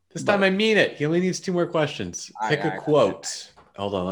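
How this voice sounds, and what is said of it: Usual voice. Nothing is said of it.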